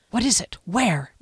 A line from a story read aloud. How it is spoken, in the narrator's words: Derry whispered